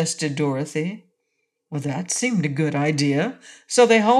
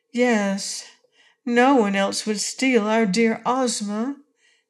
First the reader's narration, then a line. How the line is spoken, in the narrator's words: sighed Tiny Trot